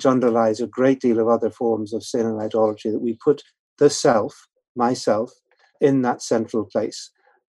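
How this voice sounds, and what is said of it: Non-American accent. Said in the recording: “You're obviously not from the U.S., if people can't tell by your accent”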